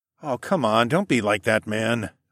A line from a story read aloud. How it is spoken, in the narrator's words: I groaned